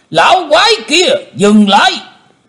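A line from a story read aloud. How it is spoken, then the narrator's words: Thunderous roaring shout. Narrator (Vietnamese): Một giọng quát tở trời gầm phát ra từ miệng của Tử Diễn Côn Luân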